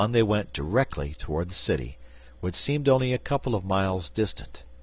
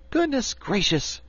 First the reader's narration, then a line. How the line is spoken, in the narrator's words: cried Dorothy